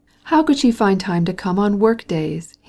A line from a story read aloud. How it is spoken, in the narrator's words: he exclaimed